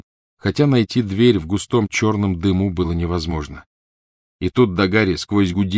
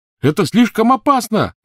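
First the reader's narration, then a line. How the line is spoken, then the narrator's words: Shouting. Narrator (Russian): закричал ему Рон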